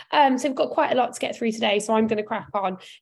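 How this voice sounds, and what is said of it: Weak, recovering voice. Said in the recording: “I am feeling marginally better today, and my voice is slowly returning.”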